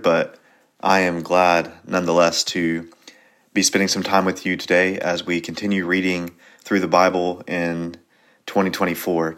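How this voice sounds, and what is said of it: Slightly off, unwell-sounding voice. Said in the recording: “my voice sounds a little funky, I'm a little bit under the weather”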